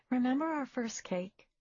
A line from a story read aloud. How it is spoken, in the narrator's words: He chuckled